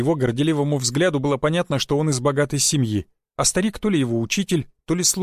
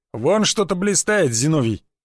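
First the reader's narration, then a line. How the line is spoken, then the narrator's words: Youth's exclamation. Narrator (Russian): воскликнул прыщавый юнец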